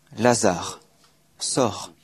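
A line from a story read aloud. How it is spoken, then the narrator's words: Loud cry. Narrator (French): il s'écria d'une voix forte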